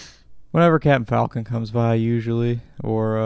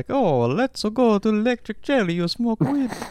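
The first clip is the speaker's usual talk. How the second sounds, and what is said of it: Rough Mario character voice impression. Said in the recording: “I can't really do a good Mario impression”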